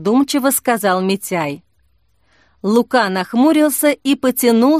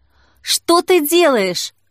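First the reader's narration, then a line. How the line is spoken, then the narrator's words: Exclaiming. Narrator (Russian): воскликнула Жанна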